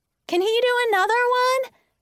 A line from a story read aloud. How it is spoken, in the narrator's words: someone called out